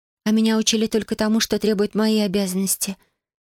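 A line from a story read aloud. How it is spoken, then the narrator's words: Soft. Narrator (Russian): мягко произнесла Йоми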